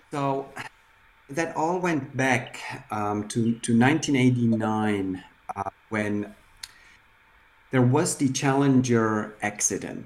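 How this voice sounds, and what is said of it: Foreign-sounding accent in English. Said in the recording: “You and I and Haya, we all speak with a funny accent.”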